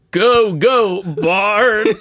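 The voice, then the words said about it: Bad put-on Southern accent chant. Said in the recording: “she's doing it with her southern dialect, so she's more like... That was horrible... trying to chant with an accent”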